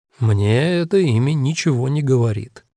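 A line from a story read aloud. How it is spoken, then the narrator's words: Even voice. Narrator (Russian): ровным голосом ответил Фаулер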